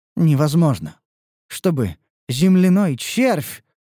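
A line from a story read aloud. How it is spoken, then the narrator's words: Mechanical muttering to herself. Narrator (Russian): бормотала она про себя, словно заведенная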